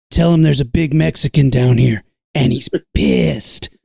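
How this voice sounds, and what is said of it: Deliberately bad imitation of another person. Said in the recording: “going to do a terrible Danny Trejo impression.”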